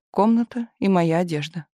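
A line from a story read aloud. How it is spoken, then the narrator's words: Sad. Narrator (Russian): печально сказал Кирилл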